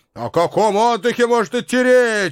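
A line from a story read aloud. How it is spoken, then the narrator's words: Cheerful shout. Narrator (Russian): бодро прокричал Ива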